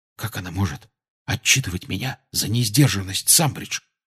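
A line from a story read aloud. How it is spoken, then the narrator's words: Whisper. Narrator (Russian): шепнул Гарри Рону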